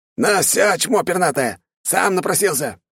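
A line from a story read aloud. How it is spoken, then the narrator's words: Furious roar. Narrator (Russian): яростно взревела голова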